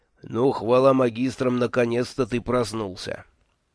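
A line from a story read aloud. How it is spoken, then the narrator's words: Silent telepathic speech. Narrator (Russian): Мой неугомонный шеф не поленился воспользоваться безмолвной речью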